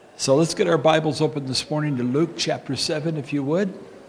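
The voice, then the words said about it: Strained, failing voice. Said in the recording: “I'm losing my voice”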